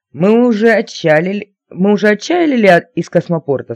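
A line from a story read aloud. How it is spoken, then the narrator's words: Plain. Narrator (Russian): спросила я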